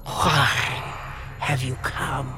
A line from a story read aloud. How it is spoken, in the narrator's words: hissed Satan